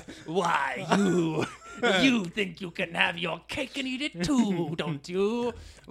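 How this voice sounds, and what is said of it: Caricatured ruling-class villain voice. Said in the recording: “Here's my impression of the ruling class.”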